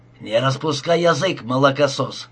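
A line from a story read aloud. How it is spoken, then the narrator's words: Growled. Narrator (Russian): прорычал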